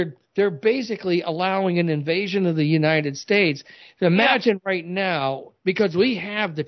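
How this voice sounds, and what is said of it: Usual voice. Nothing is said of it.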